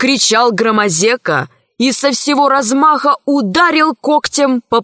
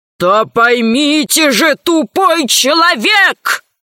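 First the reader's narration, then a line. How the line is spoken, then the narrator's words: Growling into microphone. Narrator (Russian): зарычал в микрофон Громозека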